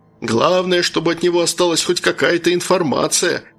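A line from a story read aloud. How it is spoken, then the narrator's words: Chuckling. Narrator (Russian): хохотнул Джон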